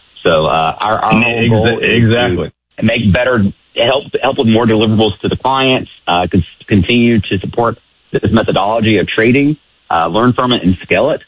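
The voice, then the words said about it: Southern accent, fast speech. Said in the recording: “my southern accent and fast cadence of talking”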